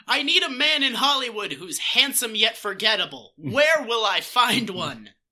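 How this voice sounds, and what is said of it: Exaggerated old Hollywood leading-man voice. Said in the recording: “they all have the exact same voice ... They all talk like this ... it's not quite the mid-Atlantic accent, like, but it's definitely the leading man accent ... it's over-exaggerated”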